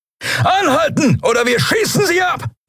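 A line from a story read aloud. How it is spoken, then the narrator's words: Roaring shout. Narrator (German): brüllte jemand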